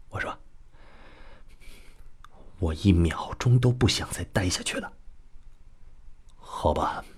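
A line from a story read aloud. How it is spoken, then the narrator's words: Hushed voice. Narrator (Chinese): 孙子楚压低声音说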